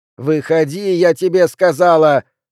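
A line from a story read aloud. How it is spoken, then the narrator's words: Shouting. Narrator (Russian): закричала Хана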